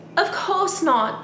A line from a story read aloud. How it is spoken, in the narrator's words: I gasped